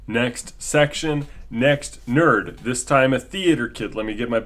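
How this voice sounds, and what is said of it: Usual voice. Nothing is said of it.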